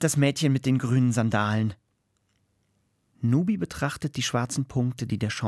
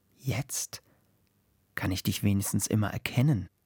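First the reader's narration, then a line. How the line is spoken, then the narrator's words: Murmured, windlike. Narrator (German): raunt der Wind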